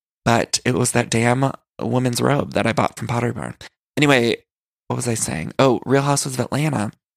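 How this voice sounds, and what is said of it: Congested, stuffy-nosed voice. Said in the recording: “my allergies have been terrible. So I apologize if I sound congested.”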